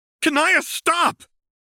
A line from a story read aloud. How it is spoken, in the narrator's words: John yelled